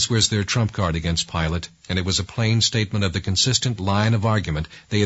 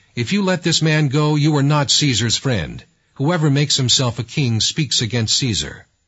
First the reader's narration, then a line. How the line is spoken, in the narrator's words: the Jews cried out, saying